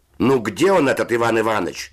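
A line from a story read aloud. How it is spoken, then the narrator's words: Shouting from upper bunk. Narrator (Russian): закричал голос верхних нар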